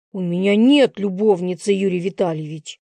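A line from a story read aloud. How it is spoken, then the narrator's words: Hissing in pain. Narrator (Russian): Прошипел мудак, когда Юрий схватил его за волосы на затылке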